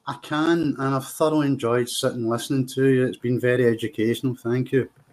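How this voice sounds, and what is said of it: Scottish Glasgow accent, slow speech. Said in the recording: “I love your accent ... I'm deliberately trying to speak slowly ... The Scottish accent, particularly the Glasgow accent”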